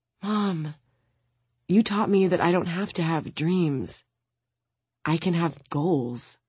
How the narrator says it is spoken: Maya wipes her tears and whispers

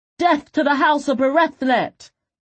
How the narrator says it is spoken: he shouted

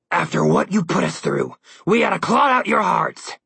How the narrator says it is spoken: Malumquah growled through gritted teeth

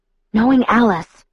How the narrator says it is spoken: I whispered in a rush

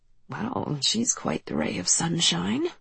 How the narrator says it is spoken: I muttered

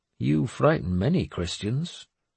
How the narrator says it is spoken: Æthelstan said dryly

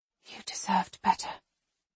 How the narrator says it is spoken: I whisper

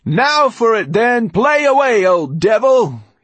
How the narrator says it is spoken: Tudor shouting

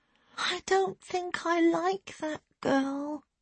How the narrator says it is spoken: she muttered sleepily

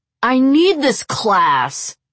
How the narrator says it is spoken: the student roared

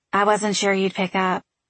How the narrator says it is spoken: Frankie said

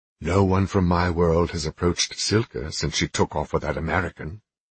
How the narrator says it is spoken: Nicholas countered, his tone contemptuous

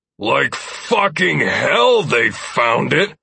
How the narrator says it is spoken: Ransom spat, the volume of his voice

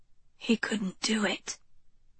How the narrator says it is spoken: she murmured

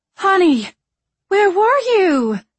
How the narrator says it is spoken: Marianne cried

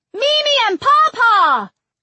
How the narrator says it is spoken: June cried

